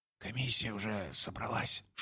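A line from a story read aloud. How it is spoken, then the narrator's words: Whisper. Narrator (Russian): шепнул он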